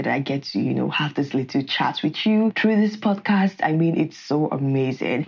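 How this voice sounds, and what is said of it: Excited, enthusiastic voice. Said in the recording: “You can tell from my voice, I'm pretty excited.”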